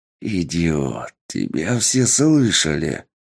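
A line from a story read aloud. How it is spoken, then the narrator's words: Hiss. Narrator (Russian): прошипел лорд-разведчик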